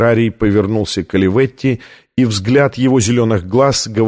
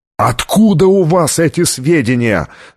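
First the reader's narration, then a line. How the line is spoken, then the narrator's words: Yelling. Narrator (Russian): завопил Оливетти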